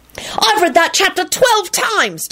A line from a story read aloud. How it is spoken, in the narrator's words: Timothy yelled importantly